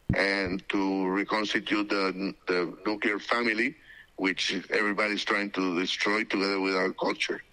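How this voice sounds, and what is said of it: Foreign accent. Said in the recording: “They hear, of course, the accent of your native country.”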